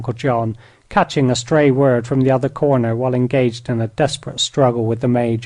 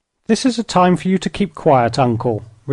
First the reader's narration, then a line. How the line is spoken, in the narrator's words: retorted Patsy merrily